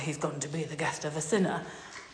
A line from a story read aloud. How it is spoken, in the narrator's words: people begin to mutter